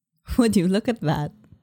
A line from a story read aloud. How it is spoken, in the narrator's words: April said with a laugh